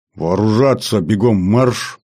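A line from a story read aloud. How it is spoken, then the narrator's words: Growled command. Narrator (Russian): рыкнул я на нее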